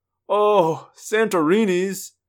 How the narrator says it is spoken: Tom groaned

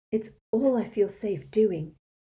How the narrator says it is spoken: said Hermione shakily

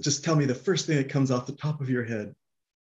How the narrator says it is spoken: this lady's just yelling, and she said

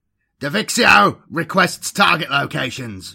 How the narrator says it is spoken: barked Karavras into the comms

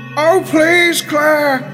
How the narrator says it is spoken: shouted Isabella

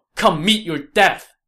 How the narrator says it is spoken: Zhang Fei shouted

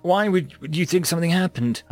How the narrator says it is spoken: I stuttered

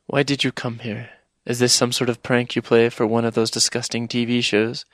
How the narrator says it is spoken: she said, her voice rising and sounding hurt

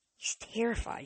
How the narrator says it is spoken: she whispered

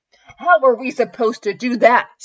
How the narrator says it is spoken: Stefan yelled

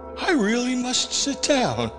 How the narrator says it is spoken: Maud said, with a nervous laugh

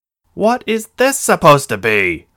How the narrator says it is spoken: the man shouted at her

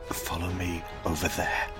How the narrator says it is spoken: I hissed back under my breath

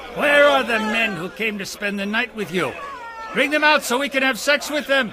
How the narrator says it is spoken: They shouted to Lot

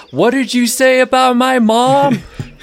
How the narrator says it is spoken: yell

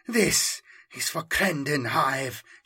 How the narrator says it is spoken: she whispered

